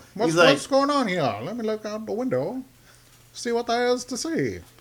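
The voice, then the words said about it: Old-timey New York accent. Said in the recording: “What accent is that? ... Like old timey New York?”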